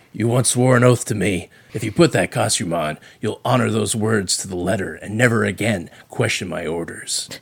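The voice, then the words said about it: Christian Bale Batman voice impression. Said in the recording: “You and your Batman voice ... the Bale voice ... the Christian Bale Batman voice ... I think it's a good Batman voice.”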